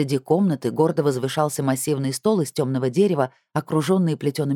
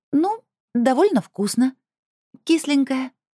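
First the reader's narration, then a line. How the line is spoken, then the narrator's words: Squeak. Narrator (Russian): пискнула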